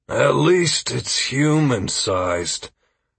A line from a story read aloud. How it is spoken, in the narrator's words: Trey said wearily